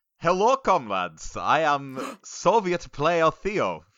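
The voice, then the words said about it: Weak put-on Russian accent. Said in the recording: “I can't maintain that accent for much longer ... who can't do an accent”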